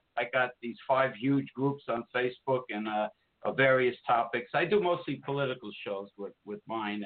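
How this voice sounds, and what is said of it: New Jersey accent. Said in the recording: “I love your New Jersey accent.”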